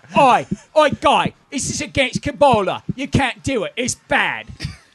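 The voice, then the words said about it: Cockney-ish British accent impression. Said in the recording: “that's my Madonna impersonation ... That was kind of Cockney.”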